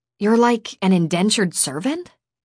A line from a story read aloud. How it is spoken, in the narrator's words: I gasped